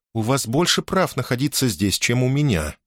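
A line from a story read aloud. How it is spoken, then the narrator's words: Calm answer. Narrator (Russian): спокойно ответила Лианна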